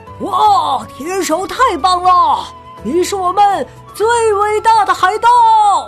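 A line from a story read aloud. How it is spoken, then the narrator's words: Excited crowd shouting. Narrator (Chinese): 船员们兴奋的叫喊道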